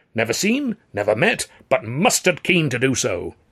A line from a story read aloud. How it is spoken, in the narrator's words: Wilbraham cried